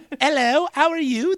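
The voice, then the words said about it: Put-on British accent. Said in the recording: “that's my British accent ... That's really good ... Everyone sounds like a bad version of My Fair Lady”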